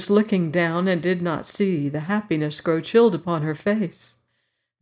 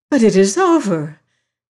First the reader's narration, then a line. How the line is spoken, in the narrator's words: she exclaimed again